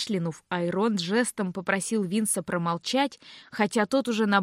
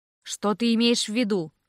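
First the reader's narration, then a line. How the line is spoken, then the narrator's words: Even-voiced question. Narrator (Russian): ровным голосом спросил Айронт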